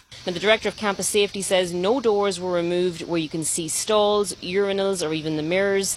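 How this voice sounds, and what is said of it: Irish accent. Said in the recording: “our girl, from Ireland ... I love how she talks ... In the Irish accent”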